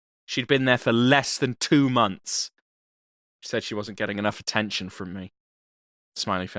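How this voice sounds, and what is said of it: Usual voice. Nothing is said of it.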